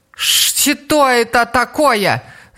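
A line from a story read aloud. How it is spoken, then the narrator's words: Shouting. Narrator (Russian): закричала она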